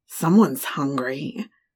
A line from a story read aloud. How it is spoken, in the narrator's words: the raspy voice said